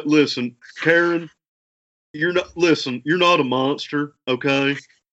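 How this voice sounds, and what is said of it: Imitates another person's voice. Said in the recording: “nail a Dr. Phil impression ... it's a little Mr. Mackey, but it's a little bit like from South Park”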